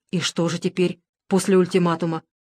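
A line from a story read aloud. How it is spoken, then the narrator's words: Plain. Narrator (Russian): спросил Редикульцев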